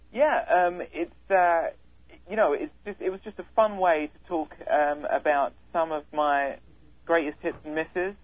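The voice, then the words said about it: English accent. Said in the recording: “I love your accent. ... I grew up in England.”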